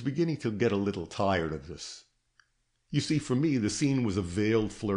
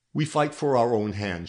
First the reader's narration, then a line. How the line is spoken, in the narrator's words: she answered